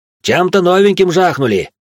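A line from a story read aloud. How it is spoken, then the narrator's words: Warrior's shout. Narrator (Russian): прокричал воин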